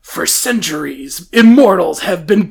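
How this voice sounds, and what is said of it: Dramatic movie trailer narrator voice. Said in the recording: “normally the trailer voice guy is, like, very extra. Is, like, always talking about high stakes.”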